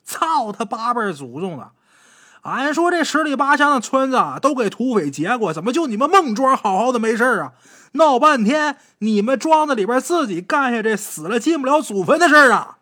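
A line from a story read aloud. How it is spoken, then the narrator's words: Furious, hate-filled blacksmith. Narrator (Chinese): 说话的，这是从打姚庄逃来的一个铁匠，他何家都让土匪给杀了，因此他对土匪是恨之入骨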